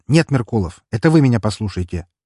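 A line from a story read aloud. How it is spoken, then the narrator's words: Sharp. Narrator (Russian): резко сказал я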